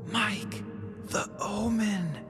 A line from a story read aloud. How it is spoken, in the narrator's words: Prescott whispered loudly